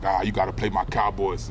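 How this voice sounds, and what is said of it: Imitation of another person's voice. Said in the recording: “That was a pretty good impression of him.”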